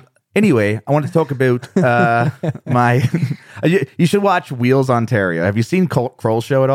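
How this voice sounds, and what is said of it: Usual voice. Nothing is said of it.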